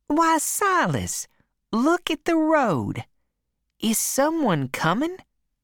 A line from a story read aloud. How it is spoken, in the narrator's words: she said brightly